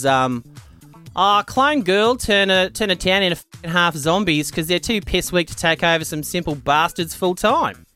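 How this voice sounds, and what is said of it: Put-on Australian accent. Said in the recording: “I'll do my best Australian accent.”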